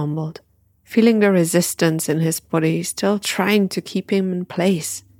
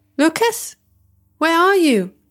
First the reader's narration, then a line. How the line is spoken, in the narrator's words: his friend shouting from one of the rooms, but her voice now seemed to change and move